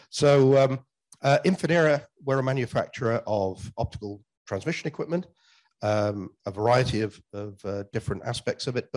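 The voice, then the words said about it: Unwell-sounding, strained voice. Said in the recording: “apologize for my voice. I'm just getting over a cold”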